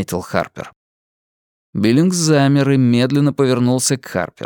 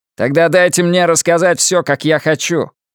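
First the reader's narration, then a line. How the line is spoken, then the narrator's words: Sharp curt remark. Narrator (Russian): резко бросил Биллингс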